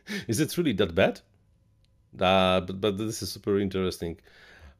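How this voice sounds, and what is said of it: Central Eastern European English accent. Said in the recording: “my English is not super perfect ... I'm from Eastern Europe, Central Eastern Europe. We have this, this have have this accent”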